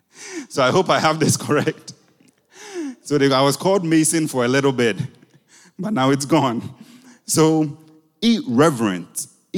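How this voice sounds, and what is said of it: Noticeable non-native accent. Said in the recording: “Daddy, your accent. ... because of your accent. They didn't hear the Nathan. They heard Mason.”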